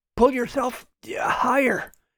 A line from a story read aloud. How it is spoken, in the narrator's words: he said between sputters